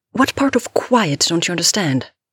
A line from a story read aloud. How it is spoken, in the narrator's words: Andy shouted